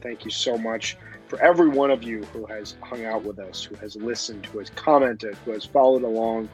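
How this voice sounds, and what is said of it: Worn-out, reduced, hoarse voice. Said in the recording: “as you can probably tell by my voice, which is reduced by about 45% right now”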